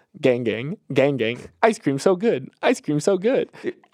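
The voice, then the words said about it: Robotic NPC-style repeated phrases. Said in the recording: “to do a little impression ... So it is very robotic.”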